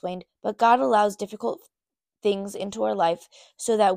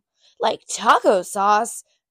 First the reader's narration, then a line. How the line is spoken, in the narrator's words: exclaimed Alyssa